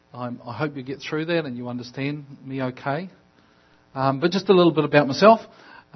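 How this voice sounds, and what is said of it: Speaks with an unfamiliar foreign accent. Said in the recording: “a funny accent”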